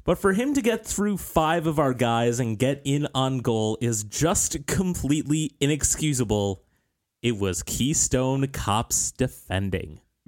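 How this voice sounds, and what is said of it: Imitates another person's voice. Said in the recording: “Great Vanny impersonation. That was fantastic.”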